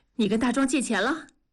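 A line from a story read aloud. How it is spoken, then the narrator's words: Breathless question. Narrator (Chinese): 文丽喘着粗气问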